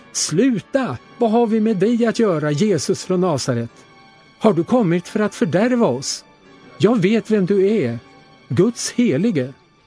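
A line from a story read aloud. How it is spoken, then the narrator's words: Loud possessed shout. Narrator (Swedish): en man med en oren ande, och han skrek högt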